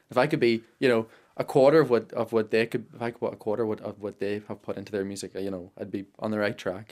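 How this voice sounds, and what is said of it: Strong Irish Monaghan accent. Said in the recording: “you've got a good, strong Monaghan accent ... a bit of northern ... there's a twang”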